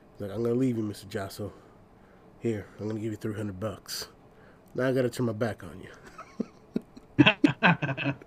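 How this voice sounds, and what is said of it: Gangster movie-style put-on accent. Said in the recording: “that's not really an Italian accent. That's just a gangster accent.”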